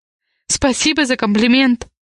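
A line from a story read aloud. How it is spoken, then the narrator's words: Tired. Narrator (Russian): ответила устало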